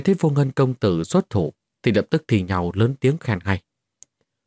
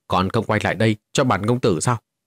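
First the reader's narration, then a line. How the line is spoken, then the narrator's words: Loud shout. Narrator (Vietnamese): Vô Ngân công tử quát lớn một tiếng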